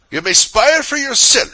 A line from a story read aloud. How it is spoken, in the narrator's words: said the woman angrily